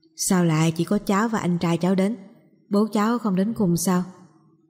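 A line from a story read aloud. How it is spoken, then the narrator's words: Little girl, shy. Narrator (Vietnamese): Đứa bé gái khẽ cúi đầu nói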